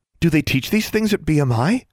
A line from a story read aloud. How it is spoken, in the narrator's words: Darla asked breathlessly